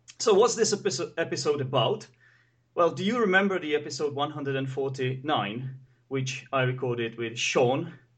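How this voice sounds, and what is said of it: Slightly hoarse, rough voice. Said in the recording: “my voice might sound a bit hoarse today ... rough or coarse”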